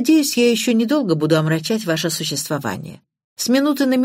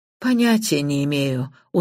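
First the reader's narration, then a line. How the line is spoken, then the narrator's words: Dejected reply. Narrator (Russian): уныло ответила мисс Блэклок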